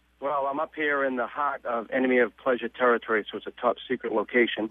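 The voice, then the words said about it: Boston accent. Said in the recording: “Boston I, I, accent... I hear it everywhere I go”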